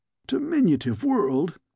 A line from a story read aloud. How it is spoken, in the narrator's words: he scoffed